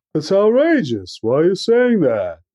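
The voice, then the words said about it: Imitates another person's voice. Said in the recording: “That's a pretty good impression. ... That's actually really good.”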